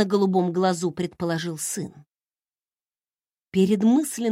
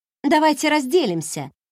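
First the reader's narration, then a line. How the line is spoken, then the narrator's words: Sharp suggestion. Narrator (Russian): резко предложила я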